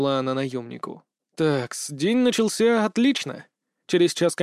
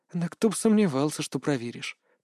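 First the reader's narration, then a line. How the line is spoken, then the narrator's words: Muttering, not upset. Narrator (Russian): пробормотала она, впрочем, не будучи расстроенной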